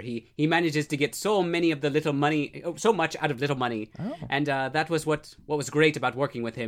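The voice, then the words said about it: Put-on Irish accent. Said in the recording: “I tried to perfect that accent ... That was pretty good ... I am part Irish, so I've always wanted to like be able to do it, but I can't.”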